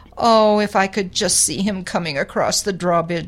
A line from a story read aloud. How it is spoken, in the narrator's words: she sighed